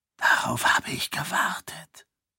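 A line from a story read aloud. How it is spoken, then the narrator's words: Soft whisper. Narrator (German): flüsterte Dilaf leise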